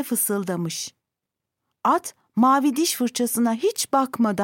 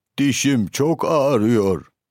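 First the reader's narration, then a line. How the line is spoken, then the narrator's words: Moaning in pain. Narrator (Turkish): diye inlemiş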